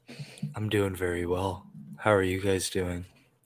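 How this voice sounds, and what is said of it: Monotone, heavy, sultry voice. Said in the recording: “sexy voice there, darling ... It just sounds monotone ... It's a lighter tone, but it's heavy, so it sounds very sexy.”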